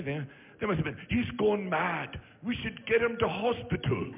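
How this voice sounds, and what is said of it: Poor put-on British accent. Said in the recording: “your British accent is getting worse. ... Why wouldn't you take 5 minutes and learn a good accent?”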